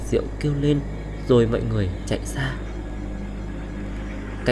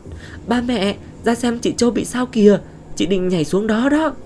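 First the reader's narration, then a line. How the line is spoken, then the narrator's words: Panicked, anguished cry. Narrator (Vietnamese): Ngọc chạy vào kêu lên thảm thốt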